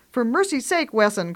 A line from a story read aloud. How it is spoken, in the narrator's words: cries Grandma impatiently